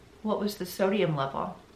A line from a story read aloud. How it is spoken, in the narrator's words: she calmly asks him